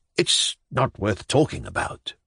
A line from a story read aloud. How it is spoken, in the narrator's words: he muttered